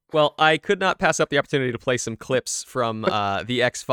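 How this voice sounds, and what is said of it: Usual voice. Nothing is said of it.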